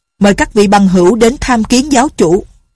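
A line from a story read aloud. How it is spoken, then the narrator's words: Loud. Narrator (Vietnamese): Bảo Đại Sở lớn tiếng nói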